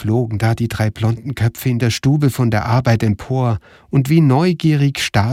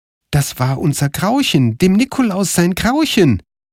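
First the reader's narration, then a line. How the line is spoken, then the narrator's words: Called out. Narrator (German): rief Karl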